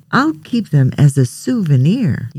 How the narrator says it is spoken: said happily

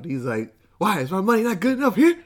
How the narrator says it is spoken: Just yells

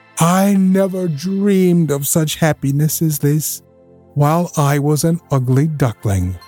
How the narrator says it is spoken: cried joyfully from the depths of his heart

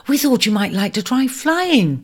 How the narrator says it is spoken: they cried enthusiastically

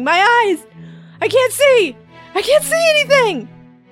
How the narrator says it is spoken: screaming in pain

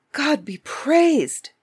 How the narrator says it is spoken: the king cried in great joy

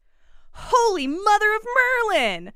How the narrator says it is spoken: Hermione exclaimed

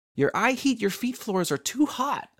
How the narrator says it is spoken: she yelled

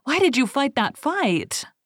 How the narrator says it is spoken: cried Becfola

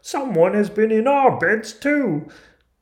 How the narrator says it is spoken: cried

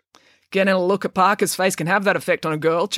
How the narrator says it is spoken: chuckled Nigel

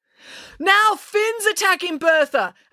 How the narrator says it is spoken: Animesh yelled over the ruckus

